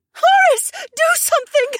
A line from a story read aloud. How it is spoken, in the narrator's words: Shay shouted over the sound of someone screaming